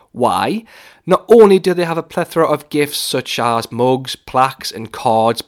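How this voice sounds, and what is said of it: Geordie accent. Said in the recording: “my accent is a bit of a giveaway as to where I'm from ... a good Geordie accent”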